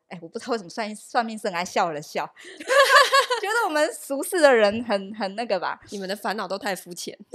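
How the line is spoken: Smiling. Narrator (Chinese): 他就笑了笑说

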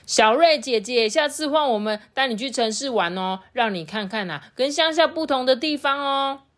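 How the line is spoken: Loud. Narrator (Chinese): 贝贝呢，大声的说

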